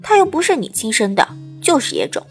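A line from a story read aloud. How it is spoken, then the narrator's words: Muttering. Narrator (Chinese): 有人嘀咕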